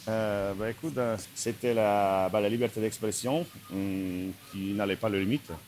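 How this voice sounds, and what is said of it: Slight Slovak accent in French. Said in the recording (French): “tu as un petit accent ... je viens de Slovaquie”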